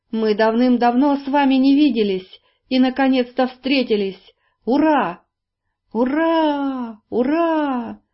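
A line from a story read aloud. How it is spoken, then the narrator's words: Shouting together in joy. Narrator (Russian): дружно завопили мигуны и жители изумрудного города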